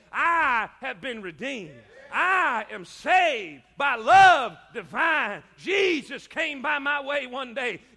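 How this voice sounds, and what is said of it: Loud shouting preaching voice. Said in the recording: “I've got something worth shouting about. I'm not, I, am not just shouting to waste my breath ... I'm losing my voice”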